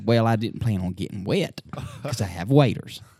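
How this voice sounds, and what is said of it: Put-on redneck accent. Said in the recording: “my brother's a bit of a redneck, so that's where the accent's coming from”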